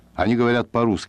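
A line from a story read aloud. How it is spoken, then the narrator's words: Plain. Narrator (Russian): сказал я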